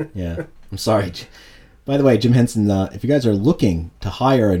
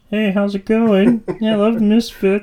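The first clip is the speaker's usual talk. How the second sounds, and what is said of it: Kermit the Frog character voice. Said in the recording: “in a fake voice... It's just you doing your Kermit voice.”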